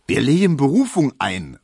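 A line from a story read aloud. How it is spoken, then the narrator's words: Impassioned call. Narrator (German): rief Tesch wieder, der jetzt die Sache zu seiner eigenen gemacht hatte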